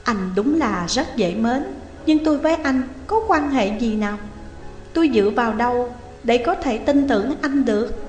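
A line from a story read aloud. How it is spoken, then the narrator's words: Smiling. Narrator (Vietnamese): Dung Nhan mỉm cười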